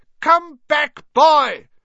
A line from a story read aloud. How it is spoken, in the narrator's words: she shouted